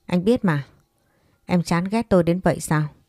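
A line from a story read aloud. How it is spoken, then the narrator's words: Cold, smiling. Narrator (Vietnamese): Đoàn Vân Nhi mỉm cười lạnh lùng nói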